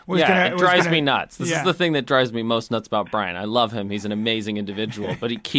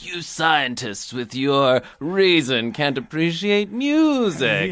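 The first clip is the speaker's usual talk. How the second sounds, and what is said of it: Bad impression of a co-host. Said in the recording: “bad impression of me ... It's a terrible one.”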